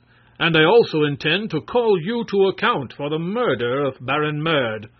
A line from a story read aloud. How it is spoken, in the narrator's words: Prince Marvel announced in a bold voice